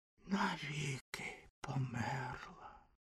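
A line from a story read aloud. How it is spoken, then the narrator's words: Whispered. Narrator (Ukrainian): прошепотів вогняний фонтан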